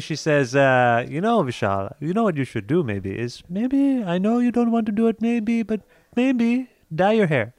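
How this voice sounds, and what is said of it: Put-on Indian accent, imitating mother. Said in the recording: “I can't believe I'm doing an accent. That's terrible. ... She has an Indian accent.”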